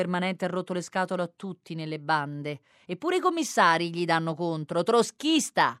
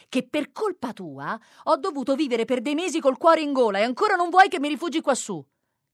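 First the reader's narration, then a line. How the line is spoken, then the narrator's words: Shouting again. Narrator (Italian): riprende a gridare Giglia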